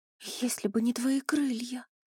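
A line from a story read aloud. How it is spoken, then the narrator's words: Frightened whisper. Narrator (Russian): прошептала Вив, побледнев еще больше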